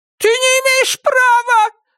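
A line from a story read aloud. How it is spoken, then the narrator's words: Shout. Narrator (Russian): закричала она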